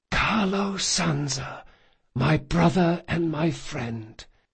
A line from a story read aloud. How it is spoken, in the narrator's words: in an impossibly calm voice he whispered